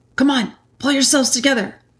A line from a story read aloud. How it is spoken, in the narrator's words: hastily saying to the others